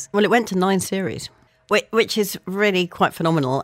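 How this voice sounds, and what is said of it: Very nice accent. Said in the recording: “you've got a very nice accent indeed”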